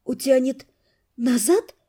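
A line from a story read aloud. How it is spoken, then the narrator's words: Breathless, ambivalent. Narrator (Russian): выдохнула я, не понимая сама, рада я этому или нет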